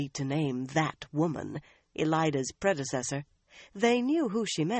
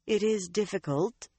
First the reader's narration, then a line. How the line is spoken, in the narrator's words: Alviarin said evenly